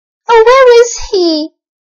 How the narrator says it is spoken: cried the little boy

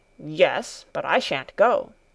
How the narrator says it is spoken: Peter growled

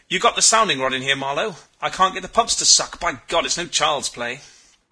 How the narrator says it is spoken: He said excitedly

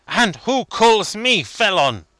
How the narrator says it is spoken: said Obenreizer fiercely

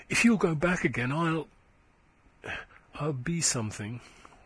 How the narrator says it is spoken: she said tenderly

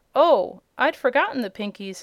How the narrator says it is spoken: exclaimed the girl

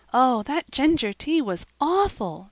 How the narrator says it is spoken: exclaimed poor Cecily

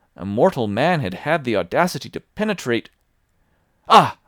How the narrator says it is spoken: I cried

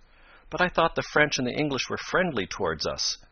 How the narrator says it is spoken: Ned exclaimed

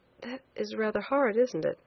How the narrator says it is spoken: said quietly, forcing a smile

